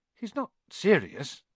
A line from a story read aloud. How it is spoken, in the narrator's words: he muttered to Percy